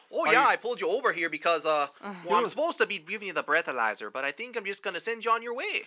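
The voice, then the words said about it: Put-on Canadian accent. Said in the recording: “Your Canadian accent is better than Jared's.”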